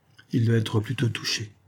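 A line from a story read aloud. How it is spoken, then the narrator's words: Low, firm voice. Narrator (French): affirma Bruce d'une voix basse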